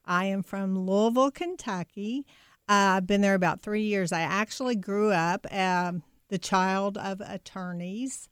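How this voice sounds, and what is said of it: Noticeable regional accent. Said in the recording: “I love your accent.”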